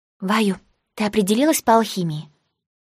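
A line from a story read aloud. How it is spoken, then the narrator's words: Whispering in ear. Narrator (Russian): Фэй-Фэй начала шептать в ухо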